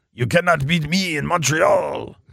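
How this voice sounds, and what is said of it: Put-on French accent. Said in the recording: “That's my French accent”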